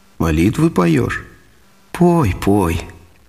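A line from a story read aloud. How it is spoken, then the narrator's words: Priest speaking gently. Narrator (Russian): Батюшка Варнава и говорит ласково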